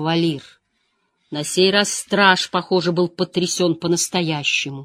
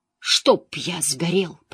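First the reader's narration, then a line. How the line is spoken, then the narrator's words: Whispered. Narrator (Russian): прошептал Мэтт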